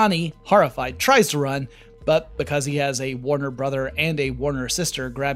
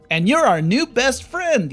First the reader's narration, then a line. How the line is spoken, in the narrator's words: yells Yakko